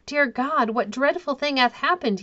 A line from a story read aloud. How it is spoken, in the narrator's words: he cried